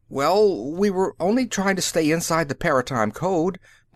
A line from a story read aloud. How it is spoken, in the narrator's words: Brannad Klav pleaded